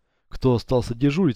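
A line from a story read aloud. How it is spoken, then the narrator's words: Plain. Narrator (Russian): спросила она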